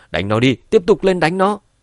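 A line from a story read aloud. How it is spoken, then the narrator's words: Angry shout. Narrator (Vietnamese): Gã vệ sĩ cầm đầu giận dữ hét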